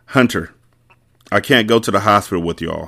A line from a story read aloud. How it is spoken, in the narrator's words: he said